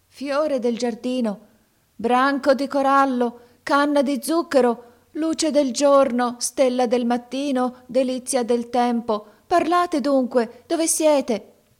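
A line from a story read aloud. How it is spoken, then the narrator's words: Startling loud shout. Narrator (Italian): gridò con voce che fece trasalire Canem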